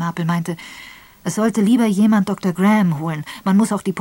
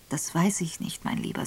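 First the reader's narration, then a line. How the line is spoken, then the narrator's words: Gentle. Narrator (German): sagte sanft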